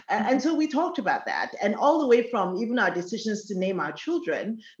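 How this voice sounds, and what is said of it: Nigerian accent. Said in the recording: “my accent ... I'm Yoruba, I'm from Nigeria.”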